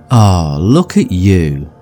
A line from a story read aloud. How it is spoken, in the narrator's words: his neighbour sighs sweetly